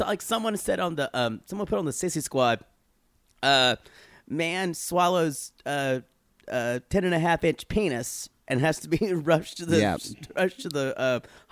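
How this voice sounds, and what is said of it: Raspy, strained voice. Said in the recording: “I got my voice back, or I'm starting to. ... It's still a little raspy. Still kind of sound like I got my throat fucked out. ... Sounds a little bit like you went to hell and back”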